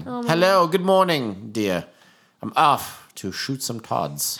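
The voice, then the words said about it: Put-on British accent. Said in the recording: “I said it in a British accent.”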